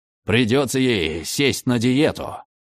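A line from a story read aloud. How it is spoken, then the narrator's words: Growl. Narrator (Russian): рыкнул Дан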